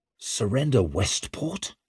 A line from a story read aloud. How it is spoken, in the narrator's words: Leo gasped in outrage